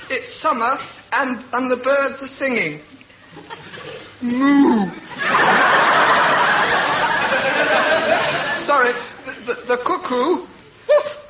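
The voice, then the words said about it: Farmyard animal noise impressions. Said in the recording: “farmyard impersonations”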